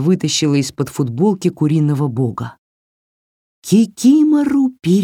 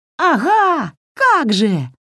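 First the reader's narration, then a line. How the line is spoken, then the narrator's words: Yelled. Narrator (Russian): завопила Васька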